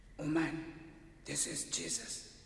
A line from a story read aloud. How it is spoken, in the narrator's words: As a joke, the workman whispered